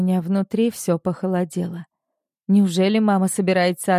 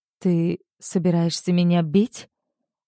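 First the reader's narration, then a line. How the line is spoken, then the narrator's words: Trembling voice, asking. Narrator (Russian): дрожащим голосом спрашиваю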